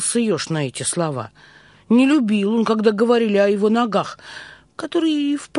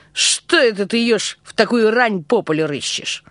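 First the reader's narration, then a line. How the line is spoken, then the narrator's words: Rude. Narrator (Russian): он сказал грубо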